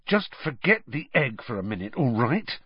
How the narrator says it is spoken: Harry hissed

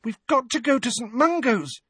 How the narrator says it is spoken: said Ginny urgently

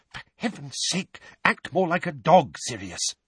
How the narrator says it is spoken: hissing

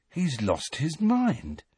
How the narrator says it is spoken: said Ron in an almost awed voice

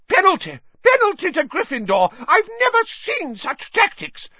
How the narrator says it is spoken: Madam Hooch screeched

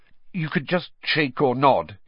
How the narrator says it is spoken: he added hastily

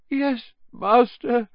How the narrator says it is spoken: moaned Wormtail

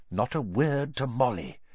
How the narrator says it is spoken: he whispered to Harry

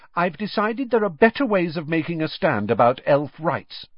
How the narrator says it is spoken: said Hermione haughtily

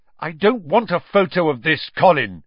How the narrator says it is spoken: said loudly

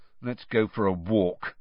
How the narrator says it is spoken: Ron muttered to Harry

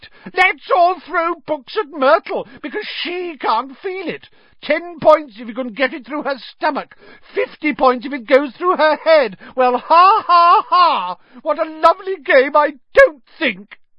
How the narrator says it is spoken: shrieked

